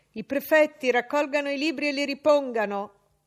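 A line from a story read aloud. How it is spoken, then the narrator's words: Shouted. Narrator (Italian): gridò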